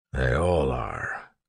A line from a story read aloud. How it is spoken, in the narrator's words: Clubs muttered